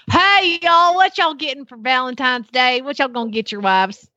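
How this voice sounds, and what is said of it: Put-on Oklahoma accent. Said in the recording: “adopt some sort of Oklahoma accent to approach them ... That was pretty good, that actually.”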